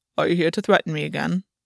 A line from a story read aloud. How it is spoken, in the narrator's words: Gwyn asked calmly